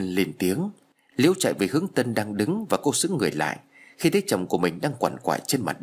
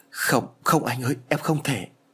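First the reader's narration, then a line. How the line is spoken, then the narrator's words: Trembling voice. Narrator (Vietnamese): Liễu run rẩy nói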